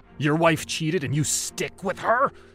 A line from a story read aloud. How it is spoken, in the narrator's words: Abdi spat out a frothy spittle